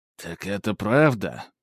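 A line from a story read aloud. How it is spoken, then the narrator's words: Muttered. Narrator (Russian): пробормотал он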